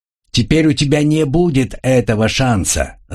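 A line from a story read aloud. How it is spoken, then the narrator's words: Angry shout. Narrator (Russian): зло крикнул посол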